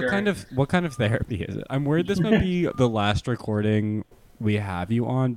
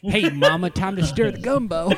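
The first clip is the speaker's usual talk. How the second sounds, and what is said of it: Imitates another person's voice. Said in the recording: “you're doing impersonation of me, but you got me.”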